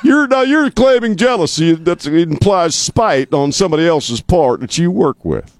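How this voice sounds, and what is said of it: Poor impression of a TV host. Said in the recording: “I'm going to go Dr. Phil on you ... That's the worst Dr. Phil accent I've ever done in my life.”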